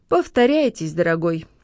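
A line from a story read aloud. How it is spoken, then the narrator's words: Mocking reply. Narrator (Russian): насмешливо отозвался Леня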